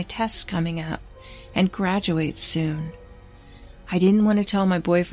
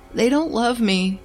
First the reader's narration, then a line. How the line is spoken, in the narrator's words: he sobbed